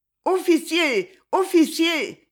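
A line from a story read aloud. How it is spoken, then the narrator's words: Shouting. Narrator (French): cria-t-elle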